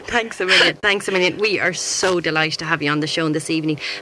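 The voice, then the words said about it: Irish accent. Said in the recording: “Lovely Irish accent.”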